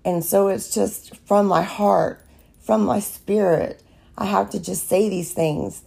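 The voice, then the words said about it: Raspy voice. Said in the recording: “I'm raspy voice from allergies ... my voice sounds so raspy”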